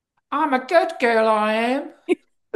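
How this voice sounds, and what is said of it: Eliza Doolittle's Cockney accent imitation. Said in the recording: “Eliza Doolittle's accent was right in either voice that she was trying to do ... I'm from the East End. That ain't how we talk.”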